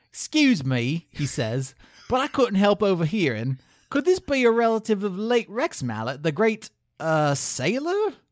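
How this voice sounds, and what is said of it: Bad put-on Cockney British accent. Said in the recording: “the best British accent I can do, which is going to be like a bad Dick Van Dyke doing a bad Cockney accent ... You do have some Creeping Jersey”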